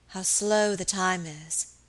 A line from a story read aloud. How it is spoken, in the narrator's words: she said wearily